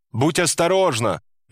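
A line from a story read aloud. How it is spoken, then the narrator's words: Shouted. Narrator (Russian): Он прокричал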